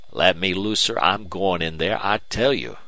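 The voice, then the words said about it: Hoarse male character voice. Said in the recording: “replied Bland hoarsely”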